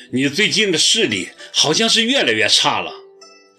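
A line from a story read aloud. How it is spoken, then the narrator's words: Calling from behind. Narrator (Chinese): 齐树礼在背后叫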